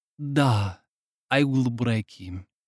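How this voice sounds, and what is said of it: Put-on Russian accent. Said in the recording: “the Russian accent.”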